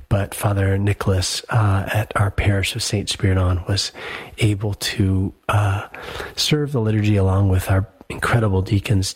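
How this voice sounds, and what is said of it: Voice off from a cold. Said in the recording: “my voice is a bit off, and that is because returning yesterday from my trip, I just came down with the most wicked of colds”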